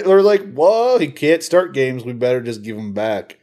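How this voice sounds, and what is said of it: Slips into a put-on accent. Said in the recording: “you slipped into the accent there”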